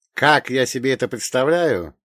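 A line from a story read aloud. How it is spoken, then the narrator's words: Snide snort. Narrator (Russian): ехидно фыркнул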